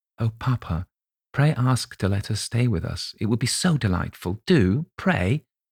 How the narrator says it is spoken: whispered earnestly in his ear

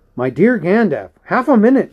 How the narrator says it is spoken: cried Frodo

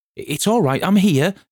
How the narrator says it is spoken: shouted Nat

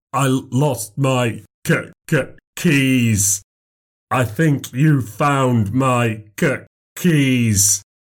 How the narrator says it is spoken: said slowly, like a man with a stutter

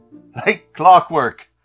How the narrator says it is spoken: laughed the librarian

